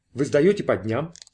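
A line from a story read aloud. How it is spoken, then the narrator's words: Plain. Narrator (Russian): спросил Кордл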